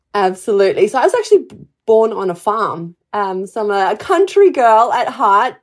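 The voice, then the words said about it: Australian accent. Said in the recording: “we've got a little clue, I think, already from your accent. So just tell us where you were born in Australia.”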